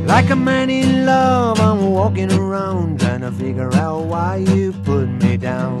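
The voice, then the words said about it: Imitates another person's singing voice. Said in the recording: “My Big Bill Brunsey impersonation.”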